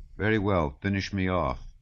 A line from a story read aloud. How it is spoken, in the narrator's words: she said to the footman in a sad voice